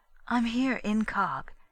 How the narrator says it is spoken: she cautioned in a low voice

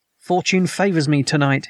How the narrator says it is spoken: he cried

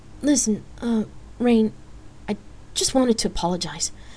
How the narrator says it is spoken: Danielle hesitantly stammered

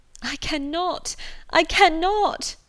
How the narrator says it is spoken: cried Marianne

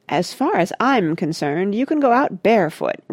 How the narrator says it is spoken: replied Mona haughtily

